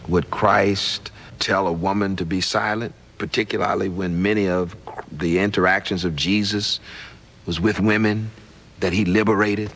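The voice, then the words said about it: Southern American accent. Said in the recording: “I find the Southern accent fairly sickening”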